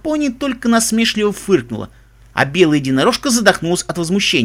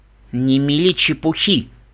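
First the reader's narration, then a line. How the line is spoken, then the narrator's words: Snorting dismissive. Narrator (Russian): фыркнула лавандовая единорожка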